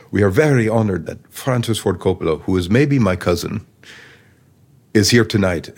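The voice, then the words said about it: Put-on Italian accent. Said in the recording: “my Italian accent”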